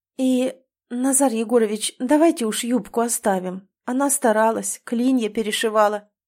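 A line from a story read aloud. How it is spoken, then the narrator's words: Soft suggestion, nanny. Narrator (Russian): мягко предлагает няня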